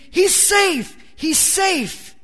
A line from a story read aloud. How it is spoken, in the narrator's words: the other bench screamed